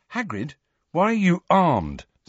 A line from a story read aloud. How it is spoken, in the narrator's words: said Harry